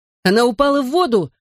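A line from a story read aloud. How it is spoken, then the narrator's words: Yelling. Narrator (Russian): заорал я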